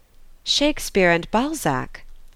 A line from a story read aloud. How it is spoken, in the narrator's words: Ernest exclaimed with some surprise